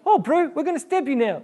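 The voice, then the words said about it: Put-on New Zealand accent. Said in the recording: “I'm very good at the New Zealand accent.”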